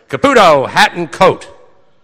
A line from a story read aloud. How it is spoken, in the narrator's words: Don Agrella, the Night City editor, yell